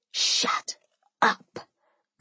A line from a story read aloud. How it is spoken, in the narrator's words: I whispered back